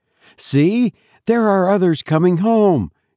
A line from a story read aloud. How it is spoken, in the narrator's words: she exclaimed with a note of relief